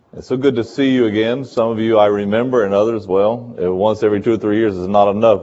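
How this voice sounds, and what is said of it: North Carolina American accent. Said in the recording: “you can tell by my accent I'm not from Seville originally or from California. Born in North Carolina.”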